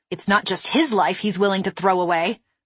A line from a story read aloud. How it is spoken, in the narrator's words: I snapped